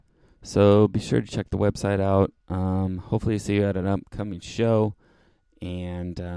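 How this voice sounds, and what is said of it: Usual voice. Nothing is said of it.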